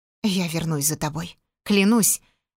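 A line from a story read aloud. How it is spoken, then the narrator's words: Whisper. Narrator (Russian): прошептал Эваскиналан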